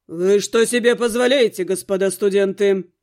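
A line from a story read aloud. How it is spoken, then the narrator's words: Icy, through teeth. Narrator (Russian): Леденеющим голосом процедил брюнет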